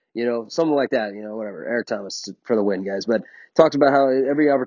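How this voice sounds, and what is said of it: Usual voice. Nothing is said of it.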